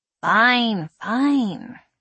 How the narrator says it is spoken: sighed

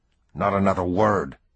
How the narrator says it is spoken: Peter snapped

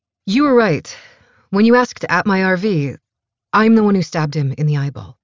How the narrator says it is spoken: Rose blurts out

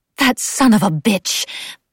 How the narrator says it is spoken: Osler snarled

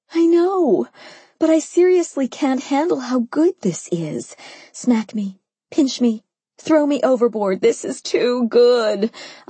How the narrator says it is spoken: I moaned again

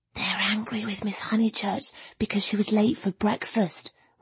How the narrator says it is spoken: whispered Minnie

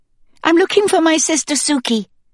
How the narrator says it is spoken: I blurted out

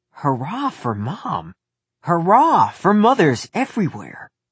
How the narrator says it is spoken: Nick sat quietly, but in his mind, he shouted

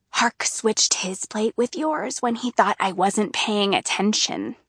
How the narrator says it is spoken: Neota whispers at me

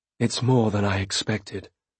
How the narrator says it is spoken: I said quietly

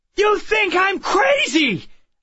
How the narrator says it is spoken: I shouted

